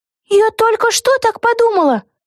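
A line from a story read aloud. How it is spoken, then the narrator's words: Exclaimed. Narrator (Russian): воскликнула Вега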